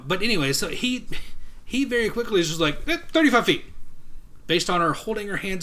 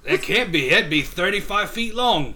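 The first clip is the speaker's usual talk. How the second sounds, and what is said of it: Put-on Australian-type accent. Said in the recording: “I just did an Australian type accent.”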